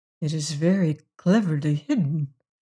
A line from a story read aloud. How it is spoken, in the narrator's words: murmured, having been baffled for a long time